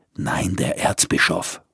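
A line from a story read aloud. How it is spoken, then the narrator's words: Snarling. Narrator (German): fauchte er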